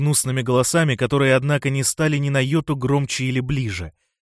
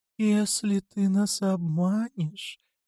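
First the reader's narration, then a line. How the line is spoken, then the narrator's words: Whispered. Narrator (Russian): прошептал первый голос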